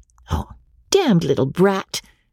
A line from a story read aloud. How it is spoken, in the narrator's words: said the pretty girl